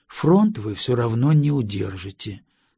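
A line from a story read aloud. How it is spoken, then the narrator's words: Calm statement. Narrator (Russian): спокойно произнес я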